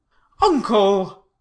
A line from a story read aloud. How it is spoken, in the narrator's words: pleaded the nephew